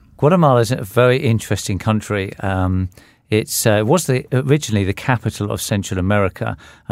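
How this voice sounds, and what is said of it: British accent. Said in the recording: “As you can tell from his accent, ... is from the UK”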